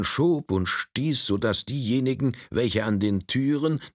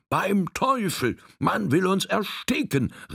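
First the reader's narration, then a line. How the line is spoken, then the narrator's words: Shrieking shout. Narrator (German): rief eine kreischende Stimme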